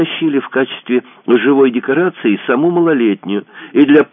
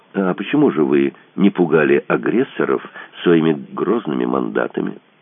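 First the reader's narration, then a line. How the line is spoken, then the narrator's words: Calm question. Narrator (Russian): Спокойно спросила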